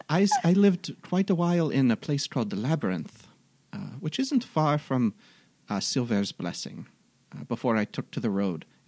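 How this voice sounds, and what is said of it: Put-on fantasy accent. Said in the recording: “This is an old Lamotian accent.”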